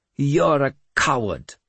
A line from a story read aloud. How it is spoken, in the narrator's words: he spat